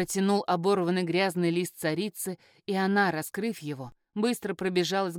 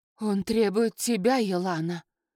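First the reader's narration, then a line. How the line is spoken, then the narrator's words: Breathed, barely voiced. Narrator (Russian): выдохнула одними губами Златовея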